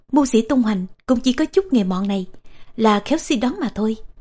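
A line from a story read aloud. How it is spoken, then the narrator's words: Smiling. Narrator (Vietnamese): Tô Tần mỉm cười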